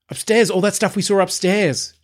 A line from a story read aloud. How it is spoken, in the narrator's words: cried